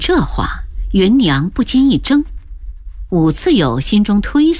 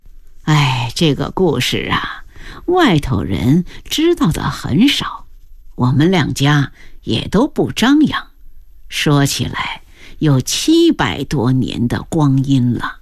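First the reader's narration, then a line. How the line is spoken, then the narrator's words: Sighing. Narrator (Chinese): 张姥姥叹了气道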